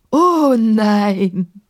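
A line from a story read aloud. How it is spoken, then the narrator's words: Calling out, laughing. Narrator (German): rief und lachte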